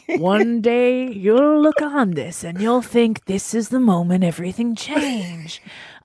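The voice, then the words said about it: Weak documentary-narrator voice impression. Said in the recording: “I'm doing the Morgan Freeman narration in my own head... It's not a great impression.”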